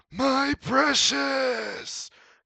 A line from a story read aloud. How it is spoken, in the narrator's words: Gollum shouts